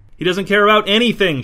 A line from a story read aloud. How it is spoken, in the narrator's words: shouted Mick